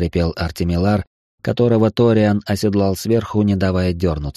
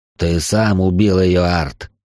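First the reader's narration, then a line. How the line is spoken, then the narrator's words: Growled. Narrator (Russian): прорычал Ториан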